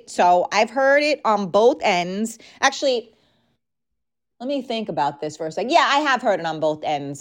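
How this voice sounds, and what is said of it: Strained, hoarse voice giving out. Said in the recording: “Wow, I'm losing my voice.”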